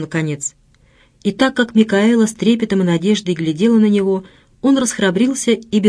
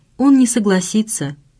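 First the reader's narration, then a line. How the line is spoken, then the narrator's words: Timid. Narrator (Russian): Микаэла сказала робко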